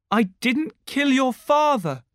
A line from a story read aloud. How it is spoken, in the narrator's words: Peter cried